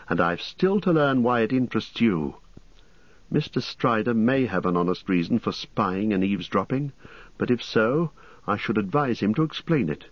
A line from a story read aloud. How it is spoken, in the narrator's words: said angrily